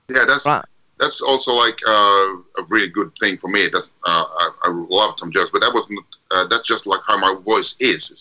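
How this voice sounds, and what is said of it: Deep bass-baritone speaking voice. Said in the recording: “you have a nice speaking voice. It's very bass, baritone. ... Very baritone.”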